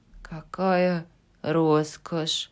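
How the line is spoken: Sighing. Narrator (Russian): вздохнула Джо

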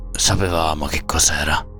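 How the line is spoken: Hoarse voice. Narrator (Italian): disse con voce rauca

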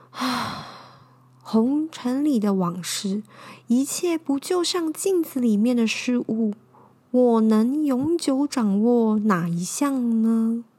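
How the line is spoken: Sighing to self. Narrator (Chinese): 小山叹了一口气，自言自语地说

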